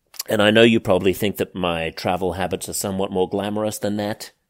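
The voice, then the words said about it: Slightly muffled voice. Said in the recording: “I sound a little muffled”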